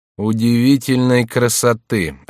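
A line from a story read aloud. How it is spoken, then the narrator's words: Gloomy. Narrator (Russian): отвечал герцог мрачно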